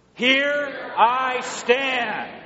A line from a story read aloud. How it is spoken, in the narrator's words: We boldly shout with Luther